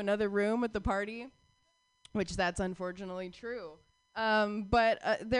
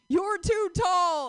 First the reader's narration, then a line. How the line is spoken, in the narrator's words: yelled